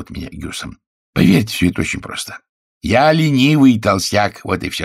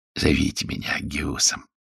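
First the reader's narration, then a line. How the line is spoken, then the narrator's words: Soft, gentle. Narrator (Russian): мягко сказал мистер Бюфорд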